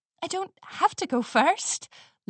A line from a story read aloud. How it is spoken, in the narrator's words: Lily Moon said nervously